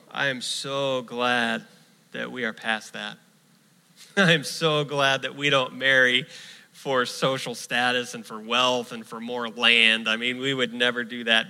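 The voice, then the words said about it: Sarcastic tone. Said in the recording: “Do you hear the sarcasm in my voice?”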